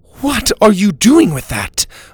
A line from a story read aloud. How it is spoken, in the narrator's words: Mora said angrily